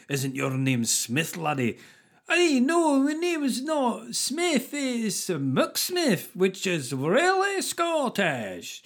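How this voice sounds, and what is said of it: Exaggerated bad Scottish accent. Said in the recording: “like with a really bad Scottish accent.”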